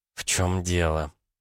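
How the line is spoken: Hissing. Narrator (Russian): зашипела Элли

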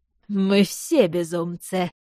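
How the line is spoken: Laughing agreement. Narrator (Russian): все еще смеясь согласился он

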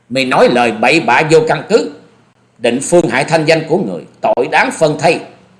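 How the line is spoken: Loud angry shout. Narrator (Vietnamese): Nàng cất tiếng quát to

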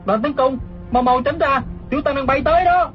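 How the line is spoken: Shouting. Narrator (Vietnamese): Hư Trúc la lên

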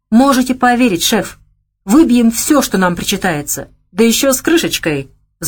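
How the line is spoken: Fearful pleading. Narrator (Russian): взмолился Никита, зная крутой нрав хозяина

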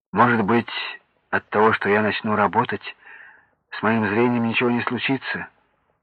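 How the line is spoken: Glum question. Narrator (Russian): уныло спросил Сергей

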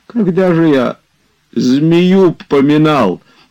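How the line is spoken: Sobbing. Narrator (Russian): говорил он среди рыданий

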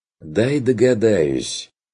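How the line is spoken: Mocking interjection. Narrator (Russian): вмешался Бруно насмешливо

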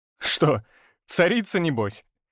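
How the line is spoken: Laughing. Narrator (Russian): рассмеялся

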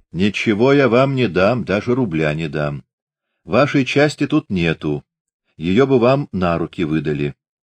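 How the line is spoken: Mockingly calm. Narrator (Russian): Издевательски спокойно она сказала

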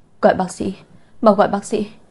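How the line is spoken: Trembling voice. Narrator (Vietnamese): Giọng nói của Lục Vi run rẩy, nói

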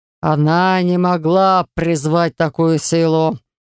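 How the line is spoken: Growling clan head. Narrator (Russian): прорычал глава рода Тиур

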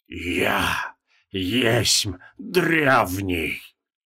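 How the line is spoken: Bleeding hoarse wheeze. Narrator (Russian): обливаясь кровью, а потом набрал в грудь воздуха и прохрипел

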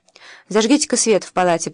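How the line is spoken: Commanding tone. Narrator (Russian): произнес Артур властным тоном

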